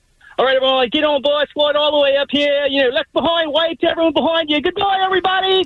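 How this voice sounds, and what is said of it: Put-on Australian accent. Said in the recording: “Australian accent ... Once he started using the accent.”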